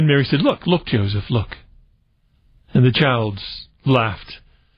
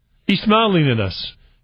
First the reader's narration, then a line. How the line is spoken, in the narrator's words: Joseph exclaimed